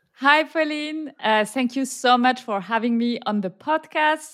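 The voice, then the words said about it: French-accented English. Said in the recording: “my terrible French accent ... A terrible accent”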